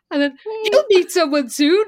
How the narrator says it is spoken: Elizabeth said brightly

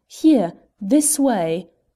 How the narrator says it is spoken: I therefore raised my voice and shouted out

